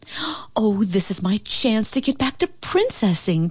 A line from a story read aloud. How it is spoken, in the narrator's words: Paulina cried